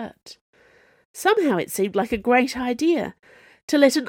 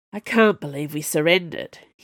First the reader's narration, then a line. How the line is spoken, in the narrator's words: he muttered